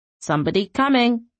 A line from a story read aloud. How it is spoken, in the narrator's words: the mimic croaked